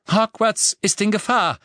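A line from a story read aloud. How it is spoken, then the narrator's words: Calling out. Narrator (German): rief Professor McGonagall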